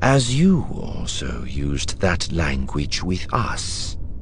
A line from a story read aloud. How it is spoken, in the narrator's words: the prisoner said calmly, in Psi-Bisti